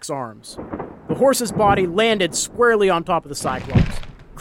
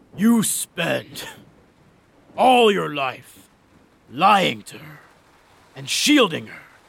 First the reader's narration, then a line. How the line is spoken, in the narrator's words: the Cyclops' voice rasped out through blood and spittle